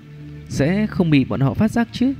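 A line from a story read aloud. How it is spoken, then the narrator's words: Smiling. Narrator (Vietnamese): Dược Lão mỉm cười nói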